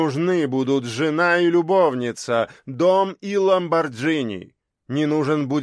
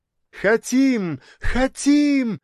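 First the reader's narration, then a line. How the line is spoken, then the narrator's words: Shout, young woman. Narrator (Russian): закричала одна из красоток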